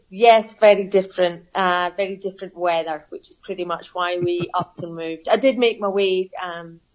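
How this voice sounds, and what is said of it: Scottish Glasgow accent. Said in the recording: “Straight away, I can tell that's not an Australian accent. ... I'm from Glasgow, born and bred.”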